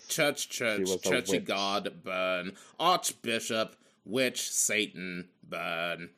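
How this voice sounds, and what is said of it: Imitates a film character's voice. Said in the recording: “good impression”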